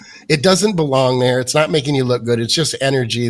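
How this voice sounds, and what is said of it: Usual voice. Nothing is said of it.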